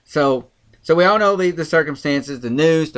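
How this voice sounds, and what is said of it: Country accent. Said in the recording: “my country accent will not let me say certain words”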